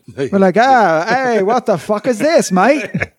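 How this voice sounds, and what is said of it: Bad put-on Cockney accent, angry. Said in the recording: “Is that Australian? ... That was like Cockney and then angry. ... Cockney, yeah. ... It's like Kangri.”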